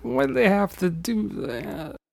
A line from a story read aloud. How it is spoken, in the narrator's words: Uncle Seamus whined